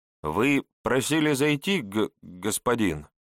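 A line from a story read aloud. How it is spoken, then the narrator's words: Slight stammer. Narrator (Russian): Чуть заикаясь, сообщил тот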